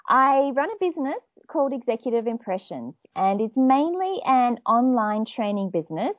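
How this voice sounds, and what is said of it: Australian accent. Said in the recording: “I am Australian. Maybe some of your listeners would have already been able to pick that from my accent”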